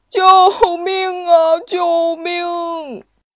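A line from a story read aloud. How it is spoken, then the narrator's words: Terrified, near tears. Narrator (Chinese): 橘子男爵要吓哭了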